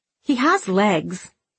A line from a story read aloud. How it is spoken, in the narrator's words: snapped Lucy